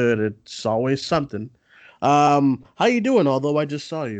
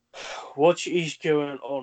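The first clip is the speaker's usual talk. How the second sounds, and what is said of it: Put-on accent imitating another person. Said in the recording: “I'm trying to put on an accent like Daniel Craig.”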